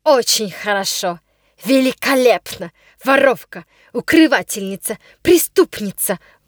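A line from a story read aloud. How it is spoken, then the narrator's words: Menacing shouting. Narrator (Russian): грозно потрясая руками в воздухе, кричала она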